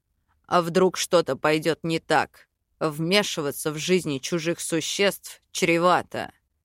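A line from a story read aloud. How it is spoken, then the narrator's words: Husband grumbling. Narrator (Russian): проворчал муж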